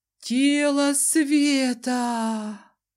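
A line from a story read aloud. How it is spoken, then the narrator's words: Crowd breathing out. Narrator (Russian): выдохнула толпа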